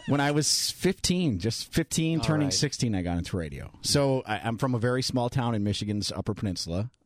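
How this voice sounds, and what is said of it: Booming radio voice. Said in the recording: “you have an amazing, booming radio voice.”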